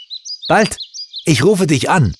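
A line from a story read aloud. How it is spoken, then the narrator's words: Calling from window. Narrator (German): rief Gerd aus dem offenen Fenster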